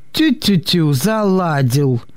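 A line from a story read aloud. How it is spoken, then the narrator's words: Snorting sergeant. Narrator (Russian): хмыкнул сержант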